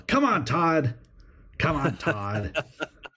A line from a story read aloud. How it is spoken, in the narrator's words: yelling at Todd